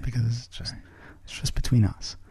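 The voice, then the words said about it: Whispering. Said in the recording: “that's why I'm whispering”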